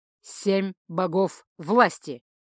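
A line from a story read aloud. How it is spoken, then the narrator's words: Abrupt bark. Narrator (Russian): без перехода рявкнул он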